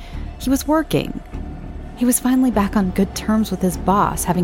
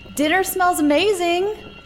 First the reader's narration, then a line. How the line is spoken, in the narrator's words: Tom yelled